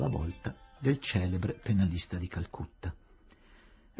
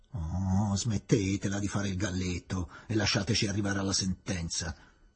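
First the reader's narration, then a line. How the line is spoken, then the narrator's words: Grumbling. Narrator (Italian): brontolò il maggiore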